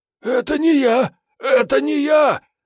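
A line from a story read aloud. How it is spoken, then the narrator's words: Hoarse shrieking. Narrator (Russian): охрипшим голосом заверещал Прыня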